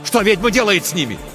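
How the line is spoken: Shouted. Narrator (Russian): крикнул Тихон

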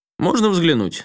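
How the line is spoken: Casual, matter-of-fact. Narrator (Russian): спросила Рюди самым обыденным тоном

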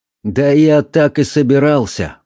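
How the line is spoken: Gloomy reply, priest. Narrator (Russian): мрачно ответил священник

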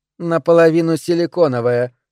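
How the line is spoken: Dry remark. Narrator (Russian): сухо заметила Айви

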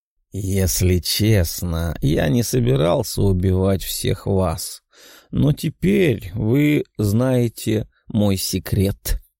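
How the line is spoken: Muttering. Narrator (Russian): пробормотал Тео

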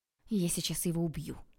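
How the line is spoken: Hissing. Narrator (Russian): прошипела я

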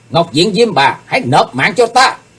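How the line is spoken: Fierce yell. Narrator (Vietnamese): tiếng hét

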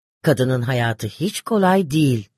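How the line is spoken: Plain. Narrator (Turkish): dedi

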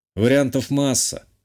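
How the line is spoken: Snorting. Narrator (Russian): хмыкнул

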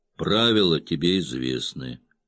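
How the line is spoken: Grim. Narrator (Russian): мрачно сказал босс

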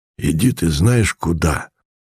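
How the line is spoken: Hoarse voice from darkness. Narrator (Russian): сказал из темноты хриплый голос

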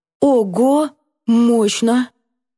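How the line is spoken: Languid exhale, chuckle. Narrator (Russian): Друг томно выдохнул и хохотнул

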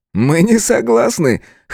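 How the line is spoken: Chuckling. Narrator (Russian): хохотнул Джефф

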